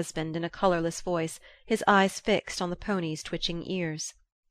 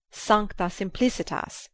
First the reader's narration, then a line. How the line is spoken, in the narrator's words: exclaimed